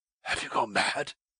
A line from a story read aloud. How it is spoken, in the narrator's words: he shouted hoarsely